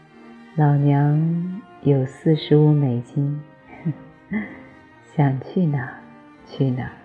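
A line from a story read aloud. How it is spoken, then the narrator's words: Faint smile. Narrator (Chinese): 他淡淡一笑说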